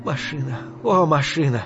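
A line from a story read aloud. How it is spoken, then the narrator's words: Shy, moved whisper. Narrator (Russian): чуть стыдливо и в то же время растроганно прошептала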